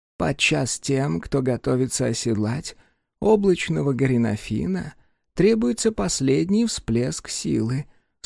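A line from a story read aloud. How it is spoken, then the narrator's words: Calm explanation. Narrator (Russian): спокойно пояснила Адь-Улик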